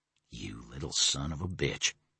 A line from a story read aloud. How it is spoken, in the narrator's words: Stephen said quietly